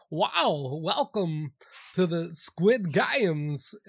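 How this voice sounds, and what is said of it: Christopher Walken impression. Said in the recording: “That was a great Walken impression. ... you're right in the zone there, dialed in.”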